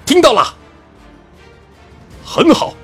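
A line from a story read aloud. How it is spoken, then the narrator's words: Loud reply in unison. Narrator (Chinese): 那群十七八岁的少年们，都同时大声的回道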